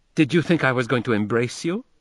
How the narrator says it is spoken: she demanded sharply

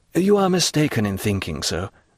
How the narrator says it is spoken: returned Franz calmly

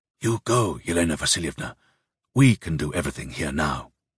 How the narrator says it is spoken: the professor ... whispered

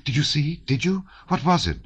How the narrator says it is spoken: exclaimed Natasha

